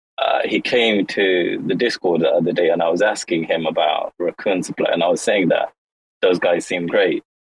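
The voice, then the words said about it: Hard-to-place South African-British accent. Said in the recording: “that accent is one of the most difficult to work out in the world ... maybe born in South Africa, moved to the UK ... that's one of the hardest accents I've ever heard in my life”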